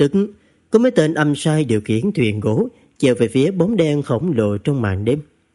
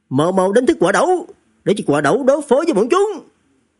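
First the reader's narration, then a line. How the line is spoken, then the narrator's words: Loud shout through clenched teeth. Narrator (Vietnamese): Thiếu chủ về nhà nghiến chặt răng quát lớn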